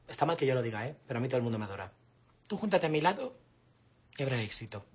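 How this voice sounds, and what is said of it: Female character with a man's voice. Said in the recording (Spanish): “esa que tiene voz de hombre ... el actor es un hombre”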